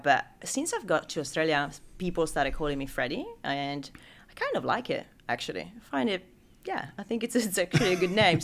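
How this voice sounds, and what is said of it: Italian accent. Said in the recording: “As you can pick up from name and accent, I'm not from Sydney originally. I'm Italian.”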